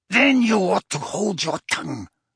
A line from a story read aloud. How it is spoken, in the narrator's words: snarled Bellatrix